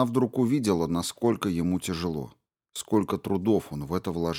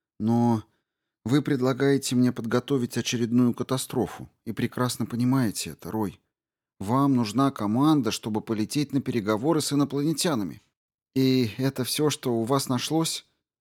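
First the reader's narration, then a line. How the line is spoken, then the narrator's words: Sigh. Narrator (Russian): МакАлистер вздохнул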